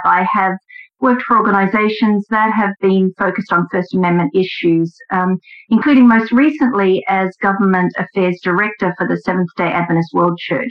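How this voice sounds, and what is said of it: Australian accent. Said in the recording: “my accent is Australian”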